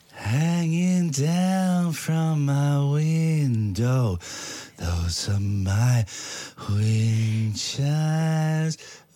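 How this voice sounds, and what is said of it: Creepy singing voice. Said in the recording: “Such a creepy voice.”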